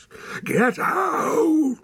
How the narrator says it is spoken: roared the man

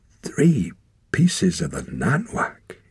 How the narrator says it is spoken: he said hoarsely

